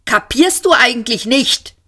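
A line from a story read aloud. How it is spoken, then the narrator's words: Shout. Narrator (German): schrie Arthur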